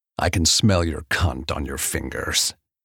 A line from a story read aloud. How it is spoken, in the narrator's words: says, almost a snarl